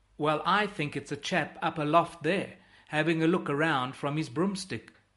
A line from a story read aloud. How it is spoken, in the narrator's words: chuckles Pepin